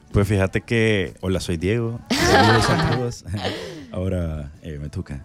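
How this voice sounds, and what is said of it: Radio announcer voice. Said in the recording (Spanish): “¿Qué voz? ¿Qué voz? ... ¿Qué voz de locutor?”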